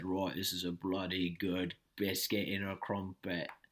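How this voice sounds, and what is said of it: Put-on working-class British accent. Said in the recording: “he has a very strong British accent ... that's Cockney ... It's not uh it's not a a wealthy man's British accent ... More of a um, Liverpool guy”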